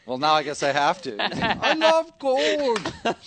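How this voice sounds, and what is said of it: Goldmember impression. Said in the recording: “your gold member impression”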